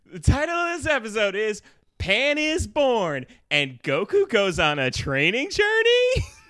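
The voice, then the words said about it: Imitated co-host's voice and inflection. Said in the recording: “do a Katie voice? ... You got the inflection, right?”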